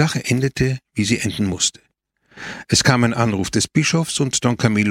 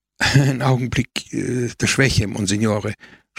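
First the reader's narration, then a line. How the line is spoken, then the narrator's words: Stammering. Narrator (German): stotterte Don Camillo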